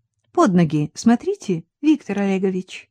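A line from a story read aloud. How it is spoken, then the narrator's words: Cheerful. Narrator (Russian): весело сказала Нина Константиновна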